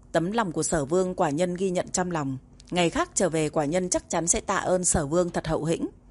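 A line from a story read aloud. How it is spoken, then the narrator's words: Cold. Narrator (Vietnamese): Độc Cô Hành, tầm mắt lạnh lùng, nói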